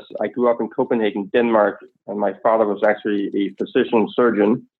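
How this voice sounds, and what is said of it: Danish-accented English. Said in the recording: “as you can hear from my accent, I'm not exactly from Oklahoma”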